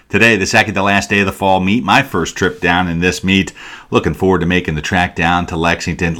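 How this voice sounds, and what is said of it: Excited, upbeat speaking voice. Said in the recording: “hear the excitement in my voice”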